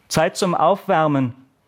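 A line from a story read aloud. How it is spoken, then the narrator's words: Bellowing across hall. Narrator (German): brüllte der Sportlehrer durch die Halle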